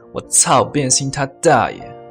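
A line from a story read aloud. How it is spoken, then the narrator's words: Chuckle then angry roar. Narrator (Chinese): 管春嘿嘿一笑，怒吼一声说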